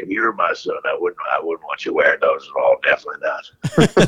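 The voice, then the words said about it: Imitates another person's voice. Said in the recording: “That's a good impression right there ... after having conversations with Jake, I mean, that was pretty spot on right there.”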